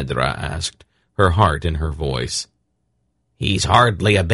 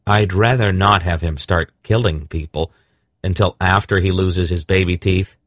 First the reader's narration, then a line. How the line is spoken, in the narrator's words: Geryon said firmly